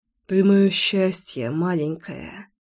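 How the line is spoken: Hoarse muttering. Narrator (Russian): Хрипло пробормотал

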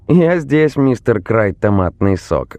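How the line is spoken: Cheerful reply. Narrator (Russian): весело отозвался Джонни

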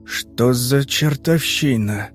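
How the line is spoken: Confused mutter. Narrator (Russian): растерянно пробормотал Аркадий

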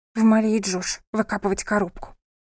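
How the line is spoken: Grumbled. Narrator (Russian): буркнула София

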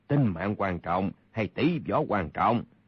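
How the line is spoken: Cold. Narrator (Vietnamese): Kha Trấn Ác lạnh lùng nói

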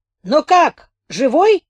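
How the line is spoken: Shouted. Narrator (Russian): крикнул капитан

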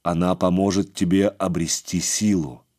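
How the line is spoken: Plain. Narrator (Russian): сказал он

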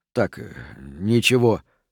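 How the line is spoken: Muttering. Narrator (Russian): пробормотал Рент

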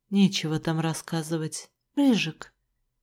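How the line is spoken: Composed even voice. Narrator (Russian): справившись с эмоциями, ответил ровным голосом

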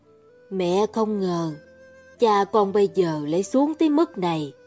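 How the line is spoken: Sighing mother. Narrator (Vietnamese): Mẹ thở dài

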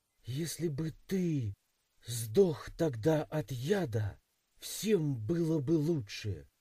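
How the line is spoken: Hateful hiss. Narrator (Russian): прошипела плененная девушка, в глазах которой стояла такая незамутненная ненависть

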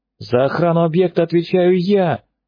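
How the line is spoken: Screaming at top of lungs. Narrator (Russian): благим матом заорал капитан

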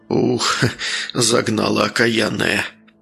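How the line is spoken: Tired, satisfied muttering. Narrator (Russian): Устало, но с чувством внутреннего удовлетворения пробормотал он

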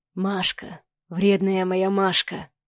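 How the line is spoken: Hoarse whisper broken by kisses. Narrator (Russian): Хриплый шепот прерывался поцелуями

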